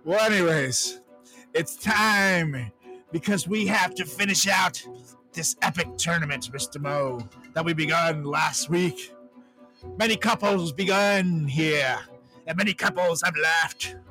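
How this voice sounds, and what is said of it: Old preacher voice. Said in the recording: “I don't know why I'm talking like an old preacher”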